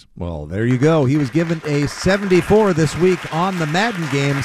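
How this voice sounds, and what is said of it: Old-fashioned game show host voice. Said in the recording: “hence this old-fashioned game show voice.”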